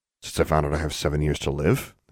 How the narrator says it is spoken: muttered

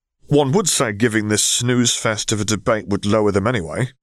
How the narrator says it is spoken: Zev grumbled as he stretched

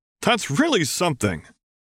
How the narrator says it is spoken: Dad exclaimed

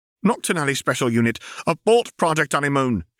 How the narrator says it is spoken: shouted

